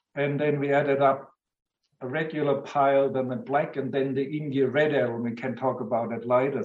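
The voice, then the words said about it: German accent. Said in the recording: “I hail from Germany, as you rightly guessed. And because of my lovely accent”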